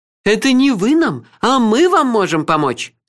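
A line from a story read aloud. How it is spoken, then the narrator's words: Exclaiming. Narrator (Russian): воскликнула рыжая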